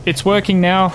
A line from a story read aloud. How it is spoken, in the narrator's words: he called out